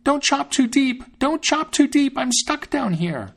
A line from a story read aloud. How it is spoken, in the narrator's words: he cried out with all his might